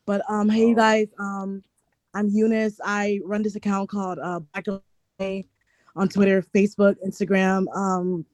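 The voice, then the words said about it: Hoarse, strained lost voice. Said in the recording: “I lost my voice”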